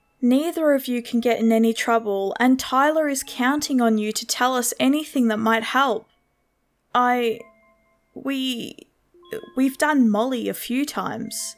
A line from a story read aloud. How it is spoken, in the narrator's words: stammered